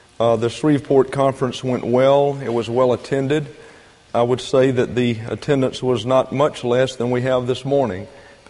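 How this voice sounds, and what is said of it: Weak, strained voice. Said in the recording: “my voice is a little weak this morning because of 6 hours of teaching”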